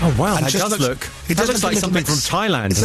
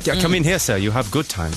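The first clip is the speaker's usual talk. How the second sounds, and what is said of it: Put-on slightly German accent. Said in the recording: “It's a slightly German accent. It's a German, man.”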